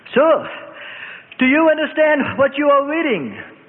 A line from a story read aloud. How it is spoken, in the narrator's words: Philip shouted to the startled charioteer